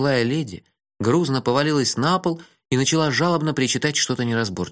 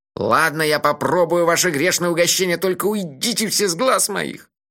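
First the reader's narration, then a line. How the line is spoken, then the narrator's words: Grumbled. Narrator (Russian): проворчал он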